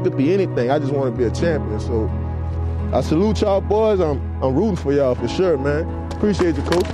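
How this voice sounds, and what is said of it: Southern Louisiana New Orleans accent. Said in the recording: “down home New Orleans, Southern Louisiana accent”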